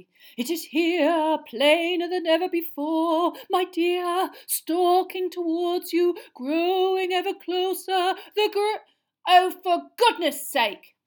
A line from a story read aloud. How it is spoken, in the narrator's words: said Hermione loudly